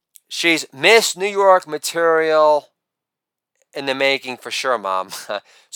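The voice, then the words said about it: Donald Trump impression. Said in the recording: “my best Trump impersonation”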